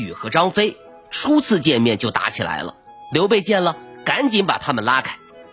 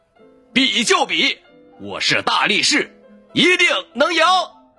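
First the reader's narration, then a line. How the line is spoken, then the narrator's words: Loud roar. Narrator (Chinese): 小左大吼一声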